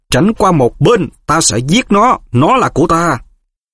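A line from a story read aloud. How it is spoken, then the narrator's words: Shrill hiss. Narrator (Vietnamese): Giọng Voldemort rít lên the thé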